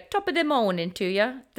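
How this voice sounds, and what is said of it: Poor Irish accent, sounds British. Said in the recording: “in an Irish accent ... I don't do accents very well ... that wasn't even Irish. That sounded more British”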